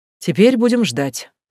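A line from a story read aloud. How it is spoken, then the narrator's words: Dry snort, almost unironic. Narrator (Russian): хмыкнул Далтон, тоже практически без иронии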